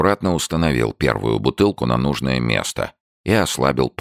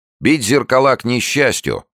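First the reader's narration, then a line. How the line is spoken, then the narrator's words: Stern objection. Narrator (Russian): строго возразил он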